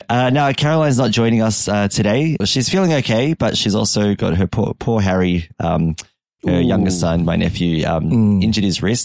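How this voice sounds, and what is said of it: Slightly croaky, strained voice. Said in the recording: “my voice sounds a little bit croaky ... my voice box has not been able to keep up with the number of matches ... I might have got a little bit animated during the week”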